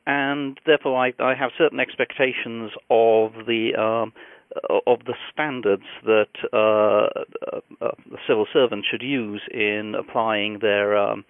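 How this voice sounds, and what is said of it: British accent. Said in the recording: “I'm a former civil servant in the British Department of Transport, as you might guess from my accent.”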